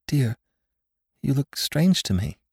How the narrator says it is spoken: faltered

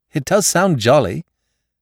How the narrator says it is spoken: Rayner laughed, a sudden eagerness of anticipation in his tone

